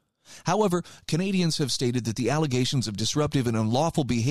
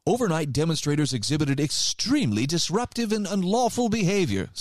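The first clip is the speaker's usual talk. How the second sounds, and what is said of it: Put-on English accent. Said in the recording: “sorry, that's an English accent”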